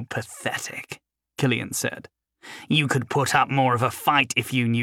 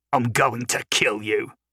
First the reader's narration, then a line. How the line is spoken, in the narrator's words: Silver snarled